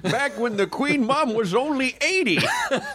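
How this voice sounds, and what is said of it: Old man prospector voice. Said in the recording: “same old man voice ... Kind of the prospector”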